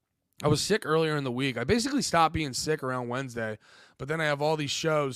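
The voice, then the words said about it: Hoarse, strained, fading voice. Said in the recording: “I'm just losing my voice because I was sick”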